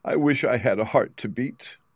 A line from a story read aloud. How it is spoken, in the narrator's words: said the Tin Woodsman sadly